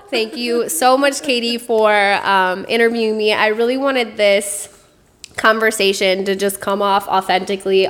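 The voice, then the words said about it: Wisconsin accent. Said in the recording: “this little Wisconsin accent I got going”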